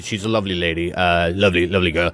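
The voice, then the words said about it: Bad Donald Trump impression. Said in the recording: “my terrible Trump impersonation”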